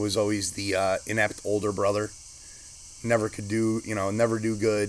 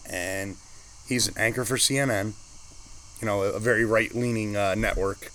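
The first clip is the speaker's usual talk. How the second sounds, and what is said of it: Sarcastic tone. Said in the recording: “hear the sarcasm in my voice”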